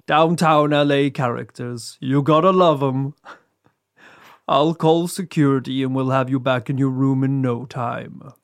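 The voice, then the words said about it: Spooky put-on voice. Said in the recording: “do a spooky voice? You're getting your spooky voice.”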